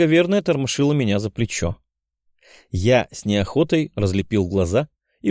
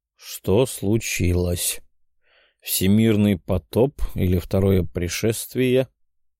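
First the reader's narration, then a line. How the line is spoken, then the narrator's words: Sleepy asking. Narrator (Russian): Сонным голосом поинтересовался я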